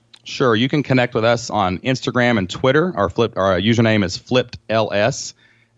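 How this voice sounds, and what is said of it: American country accent. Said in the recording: “my country accent”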